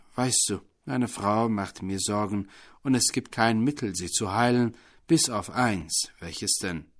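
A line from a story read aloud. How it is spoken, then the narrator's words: Plain question. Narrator (German): fragte der Affe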